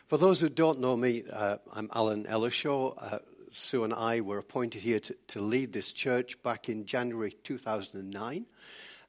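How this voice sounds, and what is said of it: Weak, recovering voice. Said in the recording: “apologies for my voice ... I lost my voice for 10 days in early January. It's still not as strong as it should be.”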